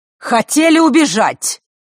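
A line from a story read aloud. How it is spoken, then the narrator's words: Shouted from doorway. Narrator (Russian): выкрикнула она с порога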